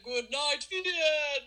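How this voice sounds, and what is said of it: Sings, imitating another person's voice. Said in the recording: “This is actually a pretty good imitation.”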